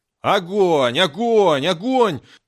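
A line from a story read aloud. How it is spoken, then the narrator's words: Yelled. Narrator (Russian): заорал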